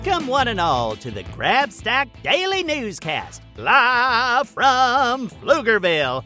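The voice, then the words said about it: Exaggerated news announcer voice. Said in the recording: “That's my announcer voice.”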